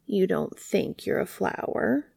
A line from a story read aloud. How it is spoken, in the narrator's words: The dandelion smiled sadly